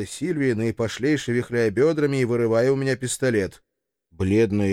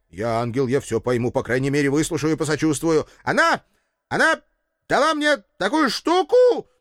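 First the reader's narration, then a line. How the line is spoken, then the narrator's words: Shouting near tears. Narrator (Russian): Едва не плачь, кричала герцогиня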